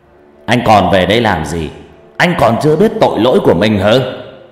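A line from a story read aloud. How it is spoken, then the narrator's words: Stern shout. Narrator (Vietnamese): Ông tổ trưởng dân phố cũng quát lên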